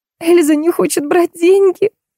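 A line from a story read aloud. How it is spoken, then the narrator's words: Whimpered. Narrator (Russian): захныкала Виолетта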